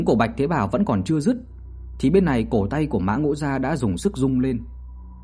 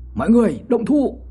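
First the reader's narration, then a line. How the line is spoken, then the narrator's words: Sudden loud shout. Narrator (Vietnamese): Bạch Thế Bảo đột nhiên hét lớn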